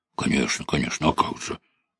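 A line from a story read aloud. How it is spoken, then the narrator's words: Mumbling. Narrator (Russian): промямлил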